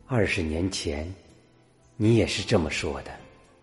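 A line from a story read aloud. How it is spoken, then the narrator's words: Tearful murmur to herself. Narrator (Chinese): 女人眼里闪动着泪光，喃喃自语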